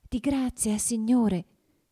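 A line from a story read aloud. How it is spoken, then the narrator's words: Trembling, soft voice. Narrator (Italian): gli disse con voce tremula e sommessa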